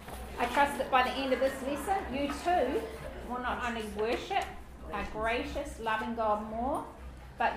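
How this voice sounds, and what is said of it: Non-American English accent. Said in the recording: “struggling to understand my accent ... I'll try and put on an American R on my words”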